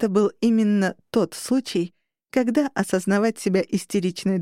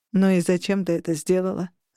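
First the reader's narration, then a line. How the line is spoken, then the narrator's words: Reproachful sigh. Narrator (Russian): осуждающе вздохнул Грей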